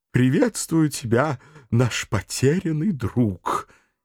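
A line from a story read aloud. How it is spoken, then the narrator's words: Joyful elf greeting. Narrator (Russian): Эльф радостно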